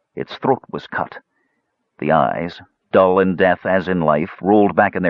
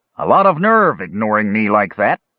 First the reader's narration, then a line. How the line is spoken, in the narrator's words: spat